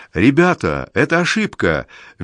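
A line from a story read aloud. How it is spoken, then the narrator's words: Cheerful. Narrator (Russian): весело говорит им Зискинд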